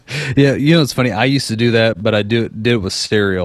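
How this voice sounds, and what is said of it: Usual voice. Nothing is said of it.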